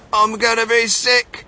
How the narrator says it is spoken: yelled Mrs

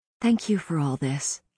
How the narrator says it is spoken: said softly

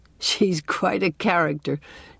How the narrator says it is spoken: chuckled Dr

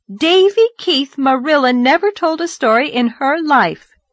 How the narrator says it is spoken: said Anne indignantly

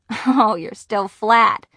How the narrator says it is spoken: Nancy laughed

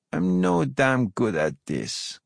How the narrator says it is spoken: she says slowly, almost shyly

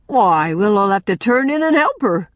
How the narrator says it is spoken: cried Jem gaily

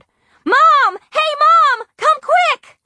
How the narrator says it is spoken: I really hollered

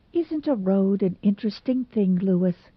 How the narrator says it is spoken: said Anne dreamily

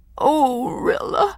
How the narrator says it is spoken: sobbed Miranda

